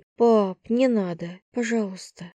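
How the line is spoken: Tight-lipped exhaled plea. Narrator (Russian): сжав губы, выдохнула

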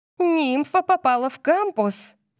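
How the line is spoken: Squeal. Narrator (Russian): Кайли взвизгнула

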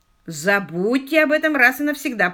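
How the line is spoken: Grumbling. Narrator (Russian): проворчал Квиллер

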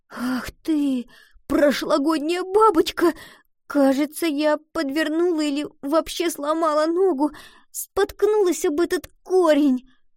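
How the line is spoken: Sobbing complaint. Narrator (Russian): Пожаловалась Гретхен, снова всхлипнув

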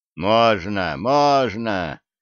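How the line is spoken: Approving mutter. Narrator (Russian): одобрительно пробурчал Федя

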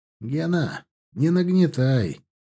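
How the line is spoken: Sighing. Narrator (Russian): вздохнул Стас

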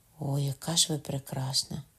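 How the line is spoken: Dazzled sighing. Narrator (Ukrainian): Іначе засліплений, знову зітхнувши

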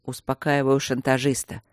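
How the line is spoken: Displeased grumble. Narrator (Russian): буркнул недовольный собой герцог

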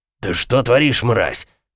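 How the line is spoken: Man's growl. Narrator (Russian): прорычал мужчина

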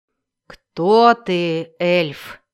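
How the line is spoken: Menacing question. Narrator (Russian): грозно спросил Эрту

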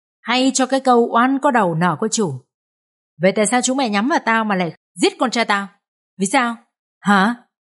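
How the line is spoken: Old man shouting. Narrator (Vietnamese): lão quát lớn

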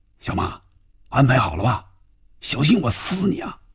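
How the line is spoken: Low, tense voice. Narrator (Chinese): 范宇宙的心里更加紧张了 压低嗓音说

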